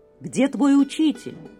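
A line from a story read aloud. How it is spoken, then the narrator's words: Rough question. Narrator (Russian): грубо спросил он мальчика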